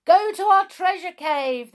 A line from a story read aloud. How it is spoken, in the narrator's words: they shouted